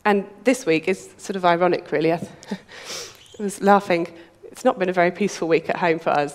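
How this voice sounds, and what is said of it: Unwell-sounding voice. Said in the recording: “You can probably hear it in my voice... We've all been ill, all been under the weather.”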